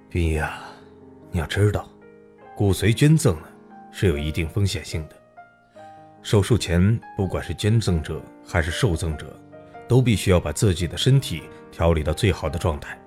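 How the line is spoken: Softened, sighing. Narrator (Chinese): 刘叔心软了，却是叹息道

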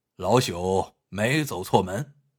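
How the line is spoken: Clear, resonant, smiling. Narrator (Chinese): 铁笔先生微微一笑，开口说话时口齿非常清楚，声音十分洪亮

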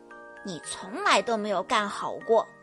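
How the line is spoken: Quiet muttering. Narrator (Chinese): 德克小声嘟囔着

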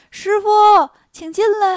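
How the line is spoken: Calling. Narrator (Chinese): 孙悟空喊

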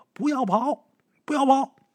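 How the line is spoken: Brief shouting that fades. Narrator (Chinese): 那呼喊声也就三四声，也就没了

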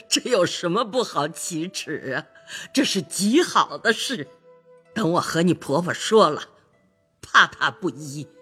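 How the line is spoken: Laughing. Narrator (Chinese): 贾母笑道

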